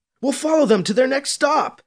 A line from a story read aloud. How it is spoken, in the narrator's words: Alibi shouts at the man